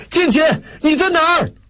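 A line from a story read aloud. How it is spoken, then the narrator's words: Urgent shout. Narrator (Chinese): 雷锋火急火燎地喊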